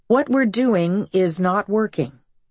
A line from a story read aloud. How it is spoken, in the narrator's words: the usually high-strung Texan explained in an even tone